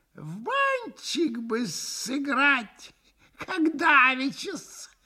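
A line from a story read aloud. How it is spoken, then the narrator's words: Giggle. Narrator (Russian): хихикнул друг Максимов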